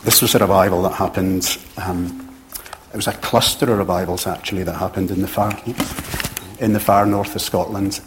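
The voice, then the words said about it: Pleasant distinctive accent. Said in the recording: “I can listen to ... all day, just a great accent.”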